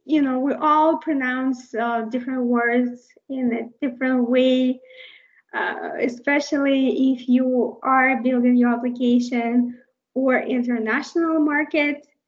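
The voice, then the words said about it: Non-native English accent. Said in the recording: “I am not a native English speaker, so you can see I have an accent.”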